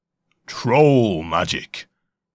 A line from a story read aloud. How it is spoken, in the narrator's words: came a booming baritone voice from beneath the bridge